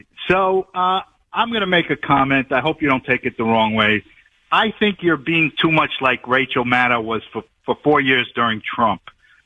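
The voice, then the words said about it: New York accent. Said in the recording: “your New York accent. I can hear it.”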